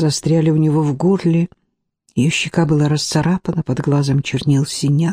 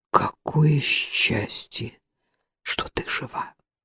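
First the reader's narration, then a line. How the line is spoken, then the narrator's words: Whisper. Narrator (Russian): прошептал Джейсон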